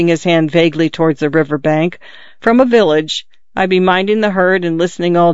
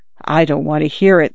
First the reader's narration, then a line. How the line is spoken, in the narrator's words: the young lady said in a low voice